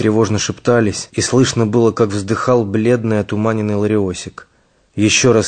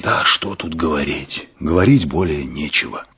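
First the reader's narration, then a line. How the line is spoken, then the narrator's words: Hoarse wheeze. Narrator (Russian): просипел Мышлаевский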